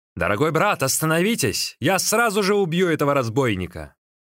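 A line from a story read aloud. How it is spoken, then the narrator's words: Shouting. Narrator (Russian): Циньмин крикнул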